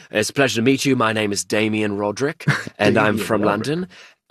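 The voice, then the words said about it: Put-on British accent. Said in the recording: “pretending to be British men ... an accent ... of course. You know, we'd be talking like this”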